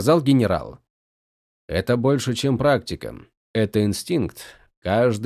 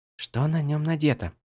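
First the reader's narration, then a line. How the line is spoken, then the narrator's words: Whispered reply. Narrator (Russian): так же шепотом ответила она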